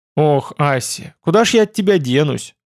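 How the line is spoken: Sighing. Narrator (Russian): вздохнул Арн

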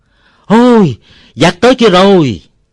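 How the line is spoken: Loud alarmed shout. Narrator (Vietnamese): Ông Bảy thét to

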